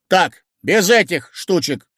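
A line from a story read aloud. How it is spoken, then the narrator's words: Stern. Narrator (Russian): строго проговорил Дегустатов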